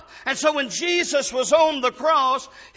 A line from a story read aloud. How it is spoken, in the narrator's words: he shouted up